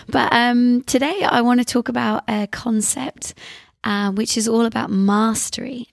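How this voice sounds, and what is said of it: Very husky, strained voice. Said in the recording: “Excuse my very husky, a bit slightly sexy voice today ... my throat is just telling me to slow down”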